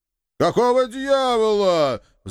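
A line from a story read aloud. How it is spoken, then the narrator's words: Young man's shriek. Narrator (Russian): взвизгнул молодой стройный вампир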